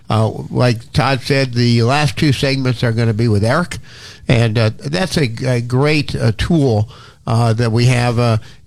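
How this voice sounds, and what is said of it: Congested voice with a cold. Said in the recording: “I'm dealing with a cold ... I apologize for my voice. I apologize for my periodic sniffle or sneeze”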